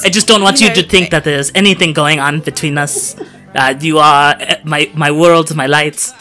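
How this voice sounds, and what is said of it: Put-on comedic character accent. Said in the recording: “What is that accent? ... plays like Fran Drescher.”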